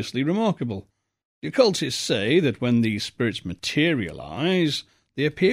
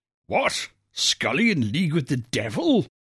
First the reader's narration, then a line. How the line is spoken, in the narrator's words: exclaimed the Colonel bluntly